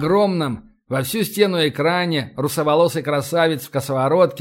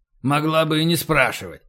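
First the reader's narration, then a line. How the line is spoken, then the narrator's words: Grumbling. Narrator (Russian): проворчал Емельян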